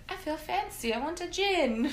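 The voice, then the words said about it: Put-on British accent. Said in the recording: “In a British accent.”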